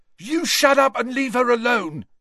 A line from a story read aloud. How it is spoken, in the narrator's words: shouted Peaks